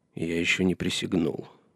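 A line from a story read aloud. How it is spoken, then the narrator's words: Muttered. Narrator (Russian): пробормотал Джон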